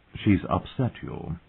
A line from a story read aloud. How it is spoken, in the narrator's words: the queen said gently